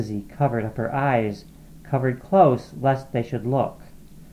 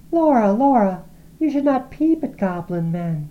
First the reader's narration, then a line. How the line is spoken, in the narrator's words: cried Lizzie